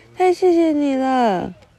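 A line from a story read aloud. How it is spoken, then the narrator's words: Happy shout, little witch. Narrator (Chinese): 小女巫高兴的大叫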